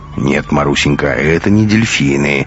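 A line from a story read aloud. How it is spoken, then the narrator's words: Lecturing, correcting tone. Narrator (Russian): менторским тоном поправил девочку Бунин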